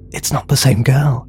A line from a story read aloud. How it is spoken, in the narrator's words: whispered Susan excitedly